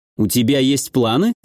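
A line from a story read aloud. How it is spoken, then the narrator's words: Wry grunt. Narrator (Russian): хмыкнул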